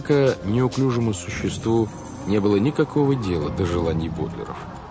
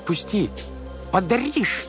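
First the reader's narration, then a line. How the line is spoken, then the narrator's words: Tiny squeak. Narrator (Russian): пискнуло солнышко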